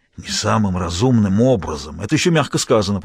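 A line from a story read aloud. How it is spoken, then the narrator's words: Grumbling. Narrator (Russian): проворчал Перкинс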